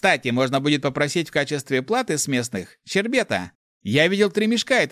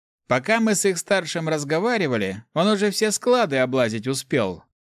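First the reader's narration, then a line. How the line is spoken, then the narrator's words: Snorting. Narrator (Russian): хмыкнул паладин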